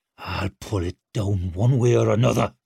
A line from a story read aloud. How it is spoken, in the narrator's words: he snarled as he wrenched it about